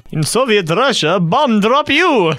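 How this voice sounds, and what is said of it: Put-on Russian accent. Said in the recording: “I can do Russian accent better than Zimbabwe.”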